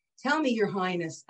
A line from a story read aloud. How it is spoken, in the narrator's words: asked the Jew